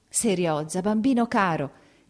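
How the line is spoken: Choked exclamation. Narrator (Italian): ella esclamò, soffocando

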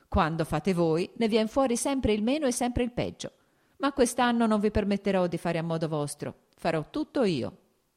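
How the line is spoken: Laughing. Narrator (Italian): aggiunse ridendo

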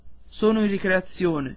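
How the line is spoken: Plain. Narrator (Italian): rispose il custode

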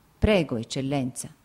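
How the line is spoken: Plain. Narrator (Italian): disse

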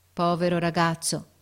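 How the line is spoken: Sad repetition. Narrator (Italian): ripeté tristemente l'ufficiale

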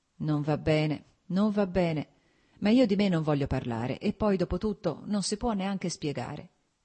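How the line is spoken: Plain. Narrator (Italian): disse Stepan Arkadic

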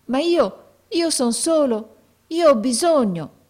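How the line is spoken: Boy's pleading exclamation. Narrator (Italian): esclamò il ragazzo con voce di preghiera

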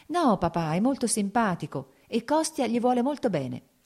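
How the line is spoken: Smiling, pleading. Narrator (Italian): disse sorridendo Kitty, come a supplicarlo di qualcosa

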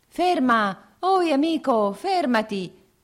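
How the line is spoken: Two voices shouting. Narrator (Italian): gridavano due voci

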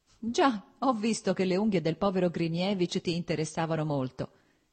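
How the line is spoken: Laughing. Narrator (Italian): disse ridendo Stepan Arkadich

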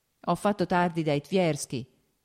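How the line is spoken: Plain. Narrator (Italian): rispose Vronsky

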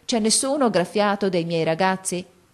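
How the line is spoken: Group shout. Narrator (Italian): E noi gli gridammo

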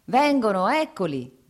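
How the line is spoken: Shouted. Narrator (Italian): gridò il contadino

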